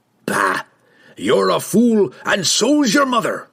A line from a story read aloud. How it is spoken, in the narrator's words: Brunner growled